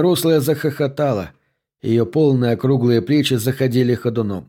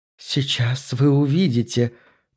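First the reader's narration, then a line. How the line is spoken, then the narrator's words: Hoarse, faltering voice. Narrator (Russian): произнесла она хриплым, прерывающимся голосом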